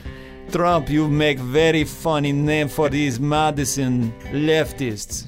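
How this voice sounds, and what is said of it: Put-on Russian accent. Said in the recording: “I don't do a good Russian accent... That was not bad for you.”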